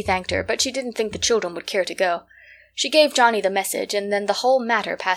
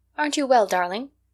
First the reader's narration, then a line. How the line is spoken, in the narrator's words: inquired Katy anxiously